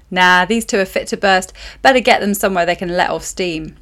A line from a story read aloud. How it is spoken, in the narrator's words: Sam said